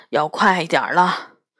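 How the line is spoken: Muttering. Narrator (Chinese): 嘟囔道

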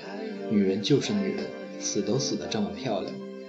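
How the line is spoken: Murmuring. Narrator (Chinese): 悟空喃喃的

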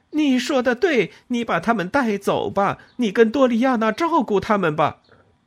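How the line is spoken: Impatient shout. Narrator (Chinese): 我失去了耐性，对他喊道

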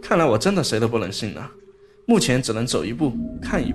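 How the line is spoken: Cold sneering inner voice. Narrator (Chinese): 我心中一声冷笑，心说

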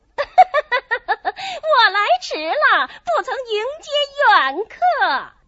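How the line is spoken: Laughing, from afar. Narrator (Chinese): 后院中有人笑声

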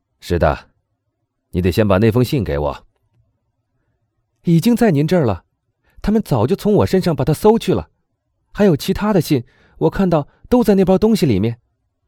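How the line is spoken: Joyful shout. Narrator (Chinese): 唐泰斯高兴的喊道

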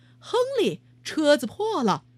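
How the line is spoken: Loud. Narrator (Chinese): 他大声说

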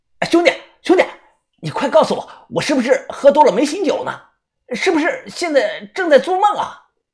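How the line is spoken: Loud question. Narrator (Chinese): 大声的问我

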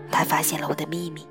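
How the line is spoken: Whisper. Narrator (Chinese): 悄声说

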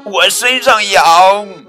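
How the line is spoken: Shouting. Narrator (Chinese): 鳄鱼大喊

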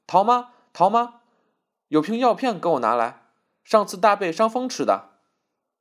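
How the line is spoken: Calling out urgently. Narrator (Chinese): 翠芝奔到楼梯口叫道

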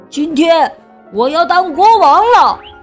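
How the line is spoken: Loud proud announcement. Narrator (Chinese): 小田鼠巴顿大声的宣布

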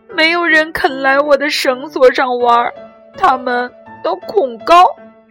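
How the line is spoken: Crying, lonely. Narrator (Chinese): 他哭着说

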